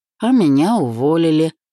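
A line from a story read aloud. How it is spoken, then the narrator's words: Blurted with a laugh. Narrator (Russian): хохотнув, выпалил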